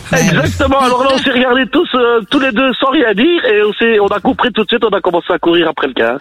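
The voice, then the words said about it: Real Belgian French accent. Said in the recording (French): “un vrai accent belge”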